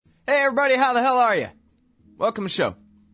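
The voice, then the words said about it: Yelling, forced energetic delivery. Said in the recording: “I'm yelling because I'm trying to make up for the fact that I haven't had enough coffee”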